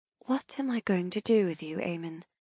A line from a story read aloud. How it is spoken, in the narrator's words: I whisper lovingly